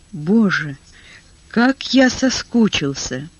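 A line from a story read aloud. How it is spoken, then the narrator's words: Whisper. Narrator (Russian): он прошептал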